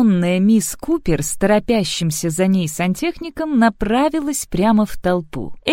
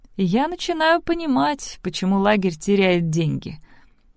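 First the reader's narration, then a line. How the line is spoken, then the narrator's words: Dry, mouth full. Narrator (Russian): сухо заметила Элли, прожевывая холодный рис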